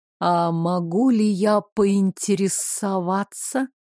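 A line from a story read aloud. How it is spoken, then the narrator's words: Gentle, the tsar. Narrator (Russian): мягко начал царь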